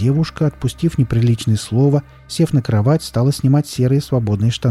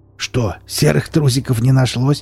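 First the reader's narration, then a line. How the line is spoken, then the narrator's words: Snorting chuckle. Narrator (Russian): хмыкнул Велес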